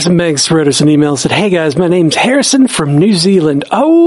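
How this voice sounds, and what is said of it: Usual voice. Nothing is said of it.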